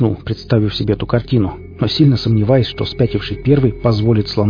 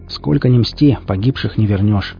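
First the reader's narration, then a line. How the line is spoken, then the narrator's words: Sighing. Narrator (Russian): вздохнул я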